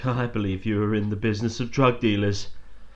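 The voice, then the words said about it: Imitates another person's voice. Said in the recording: “that's my impression of Charles Dance ... That was really good.”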